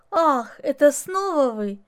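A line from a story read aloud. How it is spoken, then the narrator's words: Unnatural laugh. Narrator (Russian): Она как-то неестественно засмеялась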